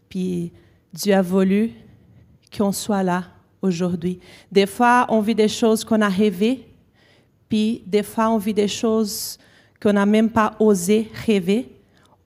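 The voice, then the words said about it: Brazilian accent speaking French. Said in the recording (French): “Si vous avez remarqué mon accent, ça ressemble un petit peu à Orlando, parce que tous les deux, nous sommes nés au Brésil.”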